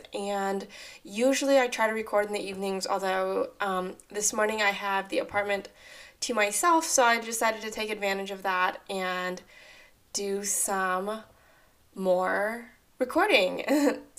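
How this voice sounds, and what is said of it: Rough, strained voice. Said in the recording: “My voice sounds kind of rough ... I kind of lost my voice.”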